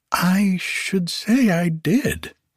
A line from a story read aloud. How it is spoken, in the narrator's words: exclaimed Sweet One Darling